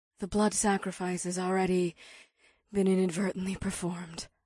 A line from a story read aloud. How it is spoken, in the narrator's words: Ada gasped